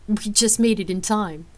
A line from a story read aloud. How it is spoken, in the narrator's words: Rain chuckled